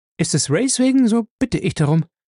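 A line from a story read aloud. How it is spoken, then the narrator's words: Hasty answer. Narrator (German): antwortete sie hastig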